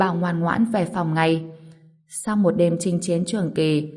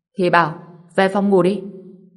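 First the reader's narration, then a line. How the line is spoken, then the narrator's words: Angry scolding. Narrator (Vietnamese): Ngô Bình tức giận mắng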